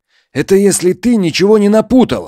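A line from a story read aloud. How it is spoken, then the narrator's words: Sharp reply. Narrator (Russian): резко ответил ему Иванов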